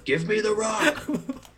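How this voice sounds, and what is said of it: Bad impression of a cartoon sidekick. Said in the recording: “his one little friend that loves him, Iago ... Little tiny guy ... It's a really bad impression.”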